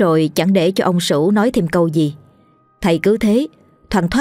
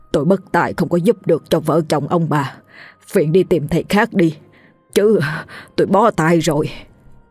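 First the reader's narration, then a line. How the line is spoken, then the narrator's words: Panting interruption. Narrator (Vietnamese): thầy Phùng vừa thở hổn hển vừa ngắt lời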